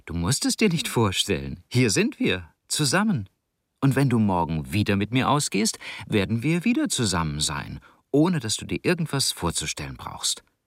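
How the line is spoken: Laughing while speaking. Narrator (German): Tom lachte und sagte

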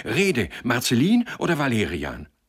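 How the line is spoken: Breathless excited call. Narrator (German): rief er in atemloser Erregung

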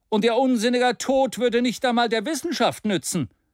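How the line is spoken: Exclaimed. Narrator (German): rief aus

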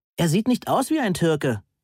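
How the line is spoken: Calling from another room. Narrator (German): rief Heike aus der Küche

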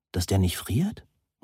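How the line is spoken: Murmured. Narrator (German): murmelte sie

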